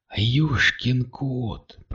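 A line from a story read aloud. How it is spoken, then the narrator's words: Whisper. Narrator (Russian): прошептал он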